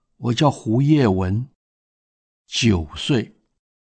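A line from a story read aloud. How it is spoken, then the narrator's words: Child's soft answer. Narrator (Chinese): 小男孩很轻声地回答说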